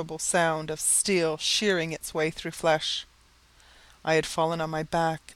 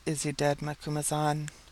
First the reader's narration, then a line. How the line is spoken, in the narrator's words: whispered